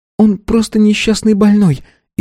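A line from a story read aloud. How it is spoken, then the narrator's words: Frightened. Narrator (Russian): испуганно начала Валона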